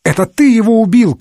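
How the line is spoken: Indignant shouting, sneezing, coughing. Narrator (Russian): кричали их возмущенные владельцы, чихая и кашляя от вьющейся вокруг пыли

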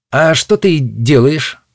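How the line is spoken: Plain. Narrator (Russian): спросил Гвоздик

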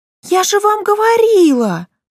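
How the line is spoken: Joyful exclamation. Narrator (Russian): радостно воскликнула Мари

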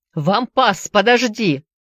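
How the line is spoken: Shout. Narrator (Russian): крикнул он

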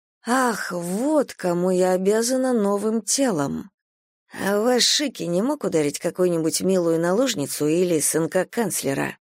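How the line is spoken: Muttered. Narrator (Russian): пробормотала я

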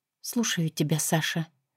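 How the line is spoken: Quiet speech. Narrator (Russian): проговорила тихо

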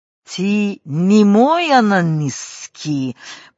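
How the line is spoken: Growled. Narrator (Russian): прорычала Маруся

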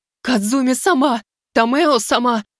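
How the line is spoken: Sobbing cry. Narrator (Russian): Чиоко, не выдержав, разрыдалась

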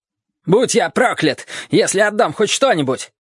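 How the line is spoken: Shouting. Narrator (Russian): кричал Ли

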